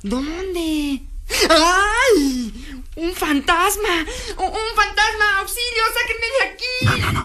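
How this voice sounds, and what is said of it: Panicked shouting. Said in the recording (Spanish): “No grites”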